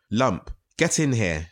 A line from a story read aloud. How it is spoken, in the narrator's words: Stone shouted